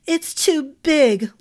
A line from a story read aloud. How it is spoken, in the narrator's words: Lathia whined